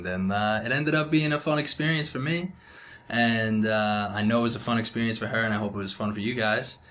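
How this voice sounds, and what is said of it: New York accent. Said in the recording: “he is from New York, if you guys can't tell by the accent.”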